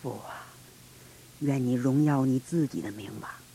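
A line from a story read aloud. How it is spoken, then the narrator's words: Murmuring. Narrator (Chinese): 他喃喃而语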